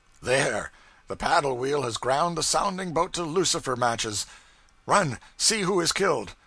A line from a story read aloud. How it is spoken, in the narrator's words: Thornburg exclaimed